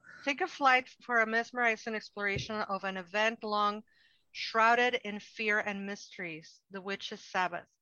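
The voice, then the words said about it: Thick non-native accent reading English. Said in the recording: “when I read in English, my accent thickens.”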